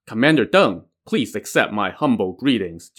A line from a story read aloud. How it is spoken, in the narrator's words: replied